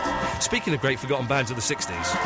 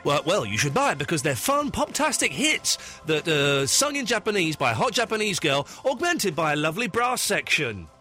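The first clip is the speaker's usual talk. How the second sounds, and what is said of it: TV shopping channel sales voice. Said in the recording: “In a QVC voice, tell me why I should buy it.”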